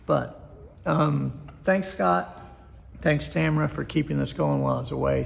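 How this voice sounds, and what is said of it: Strained, fading voice. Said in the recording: “because I'm losing my voice”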